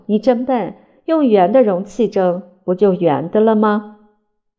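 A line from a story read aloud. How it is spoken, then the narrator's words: Loud laughter. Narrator (Chinese): 我大笑说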